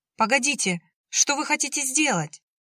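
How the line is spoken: Panicked scream. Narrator (Russian): в панике закричала Яна

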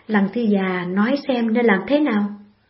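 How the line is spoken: Light probing laugh. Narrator (Vietnamese): Khấu Trọng khẽ cười như muốn thăm dò ý kiến của Từ Tử Lăng, nói

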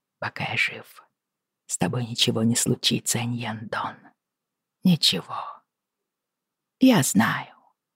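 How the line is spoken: Murmured against her ear. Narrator (Russian): Джейми прижался губами к ее уху, не задумываясь, пробормотал

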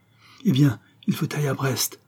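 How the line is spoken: Exclaimed. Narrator (French): s'écria Henri

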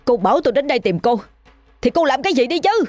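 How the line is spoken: Helpless loud shout. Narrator (Vietnamese): Bất lực, anh hét lớn

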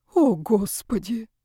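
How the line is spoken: Sighing. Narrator (Russian): вздохнул Яков

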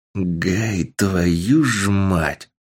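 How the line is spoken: Man muttering. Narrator (Russian): Пробормотал мужчина

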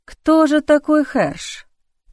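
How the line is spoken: Muttering. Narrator (Russian): пробормотал Арван

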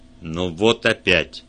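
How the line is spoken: Grumbled. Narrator (Russian): проворчал Вульф

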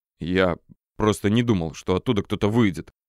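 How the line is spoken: Muffled, defensive. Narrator (Russian): оправдывался писатель-неудачник глухим голосом

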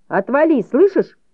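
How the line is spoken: Shouted. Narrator (Russian): крикнула Донна

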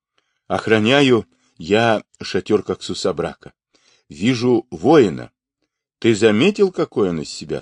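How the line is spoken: Plain. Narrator (Russian): спросил Джамуха

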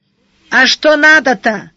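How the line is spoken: Shout. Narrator (Russian): наконец крикнул хозяин косы

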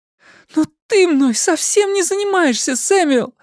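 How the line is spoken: Exclaiming. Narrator (Russian): воскликнула она

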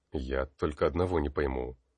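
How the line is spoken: Puzzled mutter. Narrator (Russian): пробормотал Тар

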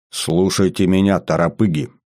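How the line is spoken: Stern. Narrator (Russian): строго сказал майор

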